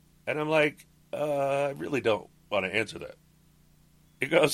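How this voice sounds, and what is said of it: Usual voice. Nothing is said of it.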